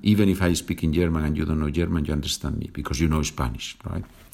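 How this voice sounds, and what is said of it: Thick Spanish accent. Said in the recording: “my thick Spanish accent”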